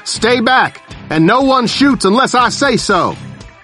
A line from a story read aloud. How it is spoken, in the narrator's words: shouting